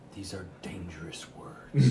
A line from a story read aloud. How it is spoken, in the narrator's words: whisper